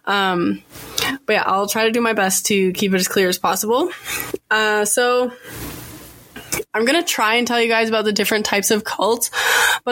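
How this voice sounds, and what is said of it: Scratchy voice from a cold. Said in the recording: “I have a bit of a cold, so my voice is really like scratchy.”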